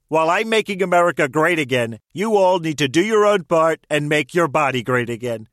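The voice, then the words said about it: Celebrity voice impersonation, a president. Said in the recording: “Celebrity voice impersonation.”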